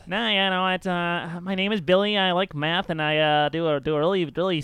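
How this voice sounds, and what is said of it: Squeaky, nerdy character voice. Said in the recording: “a little skinny pipsqueak guy with glasses ... squeaky voice ... that's pretty good”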